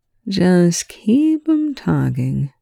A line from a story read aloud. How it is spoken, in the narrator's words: Shepherd slurs